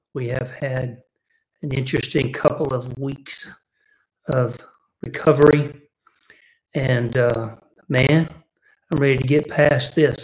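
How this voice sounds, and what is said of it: Voice weak, still recovering. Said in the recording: “my voice is a little, I'm still coming back with my voice”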